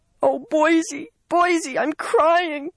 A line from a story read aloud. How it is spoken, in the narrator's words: she wailed